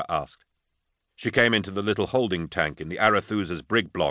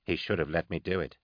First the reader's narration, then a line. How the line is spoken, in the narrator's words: Kiss said quietly